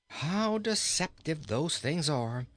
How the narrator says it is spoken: sighed the king

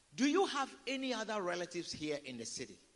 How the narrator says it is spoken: They asked

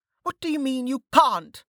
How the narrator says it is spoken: Velika shouted

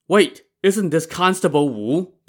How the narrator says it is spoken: the woman exclaimed

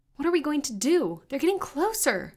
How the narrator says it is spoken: Crystal cried

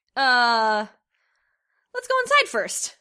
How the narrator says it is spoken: I said, trying frantically to think of something

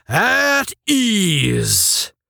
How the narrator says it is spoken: when the tension seemed unbearable, he roared

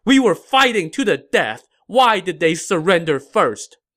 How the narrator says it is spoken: shouted

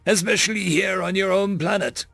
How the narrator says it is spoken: the human said with a chuckle

